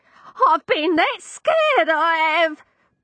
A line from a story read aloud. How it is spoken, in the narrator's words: Tupper cried